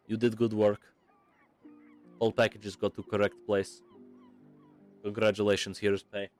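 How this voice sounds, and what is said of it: Put-on Russian accent, drifting Scottish. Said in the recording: “Why did her accent switch from like Scottish to Russian? ... it was meant to be Russian the whole time”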